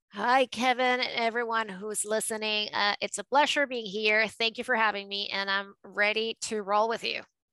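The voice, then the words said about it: Mixed New York and Latino accent. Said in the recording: “what you're hearing is a mix of New York and Latino ... A little Caracas and a little Queens”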